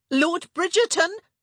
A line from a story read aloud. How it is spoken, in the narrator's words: she called out